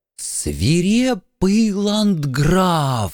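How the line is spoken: Breathed out in chorus. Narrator (Russian): Хором выдохнули присутствующие

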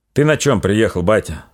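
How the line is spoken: Plain. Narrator (Russian): спросил Григорий

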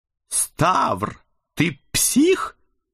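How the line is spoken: Strained smiling hiss. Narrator (Russian): натужно улыбаясь, зашипел на меня Эд

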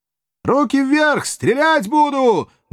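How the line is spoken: Menacing roar. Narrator (Russian): грозно взревел отчаянный подъясаул

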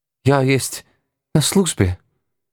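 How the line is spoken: Trembling yet proud. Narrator (Russian): дрогнувшим голосом гордо ответила храбрая австриячка

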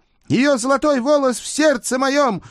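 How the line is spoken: Loud thin singing voice. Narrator (Russian): громко пропел тонкий голос

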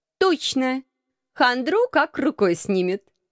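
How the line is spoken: Forced cheerfulness. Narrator (Russian): Нарочито бодро поддержала

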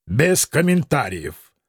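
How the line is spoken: Dry curt haughty. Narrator (Russian): сухо отрезал грек, высокомерно поджав губы

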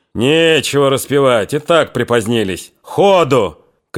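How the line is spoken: Shout. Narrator (Russian): крикнул было вахмистр

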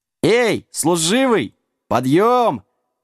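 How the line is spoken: Joyful yell. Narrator (Russian): радостно завопил пес

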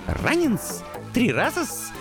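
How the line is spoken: Delighted rat squeak. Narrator (Russian): восторженно пискнул крысюк

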